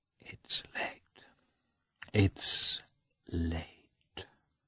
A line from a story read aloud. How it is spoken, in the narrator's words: whispered to herself